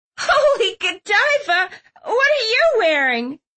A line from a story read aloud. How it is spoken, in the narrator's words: Clove asked, giggling maniacally